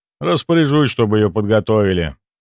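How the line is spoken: Sighing. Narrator (Russian): вздохнул Ивар

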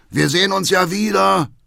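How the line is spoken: Called out. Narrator (German): ruft Vater Hackendahl

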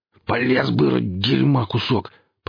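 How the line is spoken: Angry growl. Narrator (Russian): прорычал Гриф

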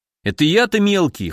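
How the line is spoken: Snorting. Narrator (Russian): хмыкнул Вася

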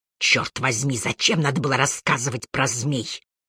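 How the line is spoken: Grumbled. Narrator (Russian): буркнул Харри

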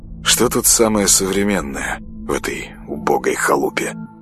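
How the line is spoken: Mumbling. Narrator (Russian): Бормотал он

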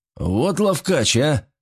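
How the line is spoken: Strained, forced out. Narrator (Russian): выдавил он с трудом

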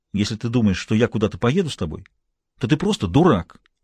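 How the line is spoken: Angry. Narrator (Russian): сказала она сердито

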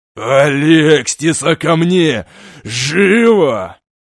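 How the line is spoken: Growling, barely restrained fury. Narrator (Russian): В телепатическом послании явственно слышались рычащие нотки с трудом сдерживаемой ярости

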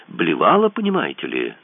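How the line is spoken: Quite cheerful. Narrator (Russian): сообщила она вполне бодро

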